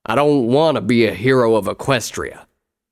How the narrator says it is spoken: Appleslice snarled

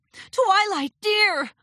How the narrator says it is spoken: Rarity called out

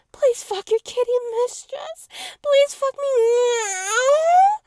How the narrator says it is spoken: Felix yowled

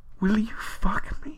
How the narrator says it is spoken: You gasp

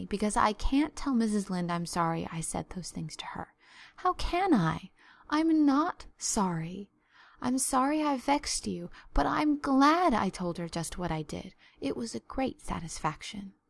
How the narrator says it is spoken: said Anne mournfully

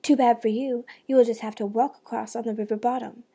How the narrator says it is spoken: the dog snapped

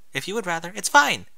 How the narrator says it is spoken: Twilight blurted

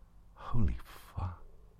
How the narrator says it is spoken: breathed and inwardly muttered

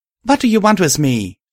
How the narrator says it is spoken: I called out to the metal beast

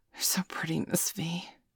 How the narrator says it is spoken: Danielle said longingly

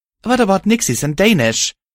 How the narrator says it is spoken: I said angrily

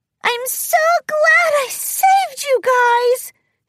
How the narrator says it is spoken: squealed in a cute voice

